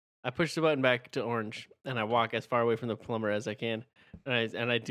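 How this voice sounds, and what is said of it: Usual voice. Nothing is said of it.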